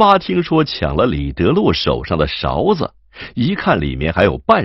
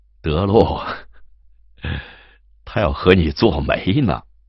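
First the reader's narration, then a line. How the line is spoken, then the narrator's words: Laughing. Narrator (Chinese): 金荣笑道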